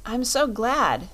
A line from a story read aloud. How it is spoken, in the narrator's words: exclaimed Dorothy